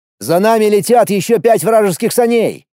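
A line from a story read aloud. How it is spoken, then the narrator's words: Shouted. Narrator (Russian): крикнул я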